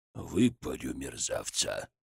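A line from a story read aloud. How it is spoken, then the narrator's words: Growl. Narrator (Russian): зарычал Нагайцев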